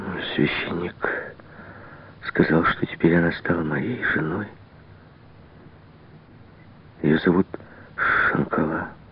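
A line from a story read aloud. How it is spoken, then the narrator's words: Sad mumble. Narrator (Russian): пробормотал он таким печальным голосом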